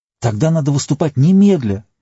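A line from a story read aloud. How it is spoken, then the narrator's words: Exclamation. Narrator (Russian): воскликнул Йомер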